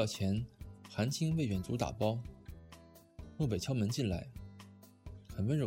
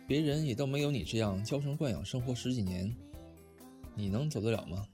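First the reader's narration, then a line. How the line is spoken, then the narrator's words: Restrained, faint smile. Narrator (Chinese): 淡淡的笑了笑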